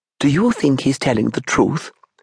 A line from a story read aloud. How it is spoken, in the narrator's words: Frederick turned to Rapunzel and whispered